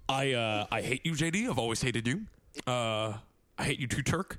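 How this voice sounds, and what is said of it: Impression of a TV doctor character. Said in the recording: “hear my impression of Dr. Cox ... Very good.”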